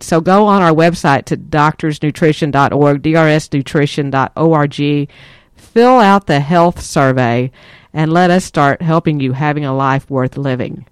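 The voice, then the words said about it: Texas accent. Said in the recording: “they're in Texas because I can hear that accent, you're right, we are”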